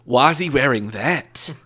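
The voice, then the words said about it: Fairly good put-on Australian accent. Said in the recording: “my Australian accent ... That's pretty good.”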